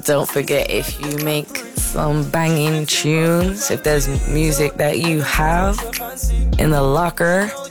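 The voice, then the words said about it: Put-on American accent. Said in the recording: “don't know why I'm doing the American accent”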